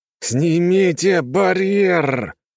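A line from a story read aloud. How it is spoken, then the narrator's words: Hissed. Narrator (Russian): прошипел он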